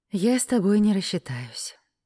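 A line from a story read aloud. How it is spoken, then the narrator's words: Sighing. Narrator (Russian): вздохнула я на кассе, увидев счет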